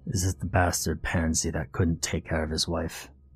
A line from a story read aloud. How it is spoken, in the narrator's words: Petey grunted